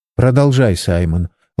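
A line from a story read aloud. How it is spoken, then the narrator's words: Gentle request. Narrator (Russian): ласковым голосом попросила Сара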